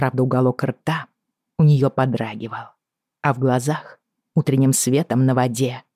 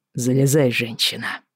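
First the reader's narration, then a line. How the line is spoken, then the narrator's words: Hoarse command. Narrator (Russian): хрипло велел он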